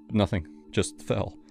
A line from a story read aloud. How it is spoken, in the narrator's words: my voice shook